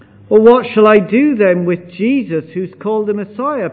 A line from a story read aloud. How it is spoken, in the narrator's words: Pilate asked